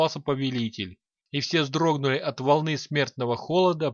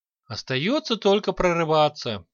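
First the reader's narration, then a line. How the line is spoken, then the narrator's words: Heavy sigh. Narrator (Russian): тяжело вздохнул Санти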